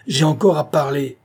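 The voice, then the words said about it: Terrible, shouted commanding tone. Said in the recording (French): “criait-il avec un accent terrible”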